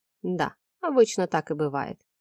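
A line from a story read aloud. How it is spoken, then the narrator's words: Smirking. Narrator (Russian): хмыкнул Вадим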